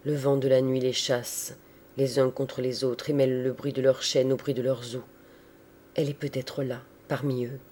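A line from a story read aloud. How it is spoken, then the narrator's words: Murmur. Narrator (French): murmura-t-il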